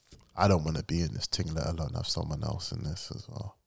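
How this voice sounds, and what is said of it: Low, husky voice with a cold. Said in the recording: “bedroom voice? ... I've got a cold now coming. I don't feel well.”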